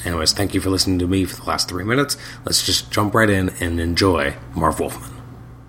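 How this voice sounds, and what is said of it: Sore, hoarse voice. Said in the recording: “my voice is a little sore when I'm speaking ... I'm actually quite sick at the moment ... So it's a little hoarse.”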